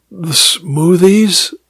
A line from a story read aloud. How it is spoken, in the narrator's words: I sighed